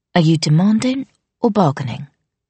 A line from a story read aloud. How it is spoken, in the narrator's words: Arthi asked, willing her voice to remain calm